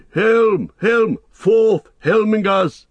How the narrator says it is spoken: He shouted as he leapt down the stair from the rock

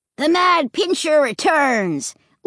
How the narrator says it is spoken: Luke cried

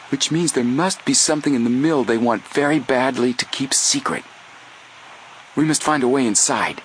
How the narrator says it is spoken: Joe said excitedly

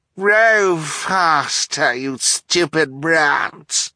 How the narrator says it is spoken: the octopus cried in a familiar, wicked voice

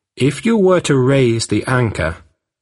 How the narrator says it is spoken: the missionary said

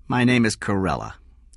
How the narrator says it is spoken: Carella said flatly

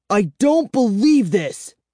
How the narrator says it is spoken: I cried

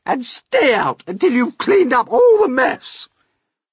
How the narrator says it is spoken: they yelled

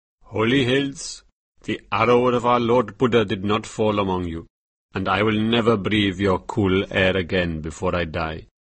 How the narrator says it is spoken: The Lama looked sadly towards the Himalayas, which were his home, and said

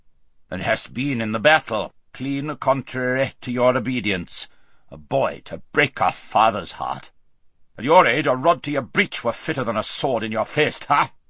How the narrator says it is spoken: said the king in a very gruff voice

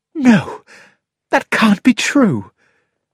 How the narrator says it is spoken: gasped Mary

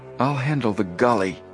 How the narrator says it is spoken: Joe whispered

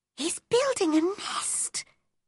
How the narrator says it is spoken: whispered Mary

